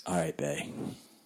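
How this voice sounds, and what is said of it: Creepy put-on voice. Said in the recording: “creepy voice? ... Oh, that was super creepy.”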